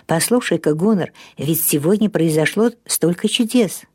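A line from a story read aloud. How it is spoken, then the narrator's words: Whisper. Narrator (Russian): он прошептал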